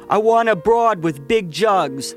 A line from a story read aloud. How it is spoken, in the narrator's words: one of the men yelled